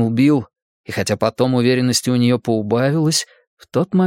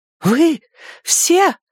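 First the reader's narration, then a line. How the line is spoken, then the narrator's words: Sudden shocked cry. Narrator (Russian): внезапно закричала она, потрясенная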